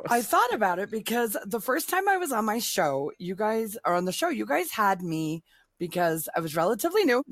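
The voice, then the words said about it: Hoarse, failing voice. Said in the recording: “I'm losing my voice today”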